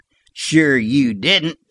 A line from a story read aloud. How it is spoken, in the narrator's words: chuckled Sliver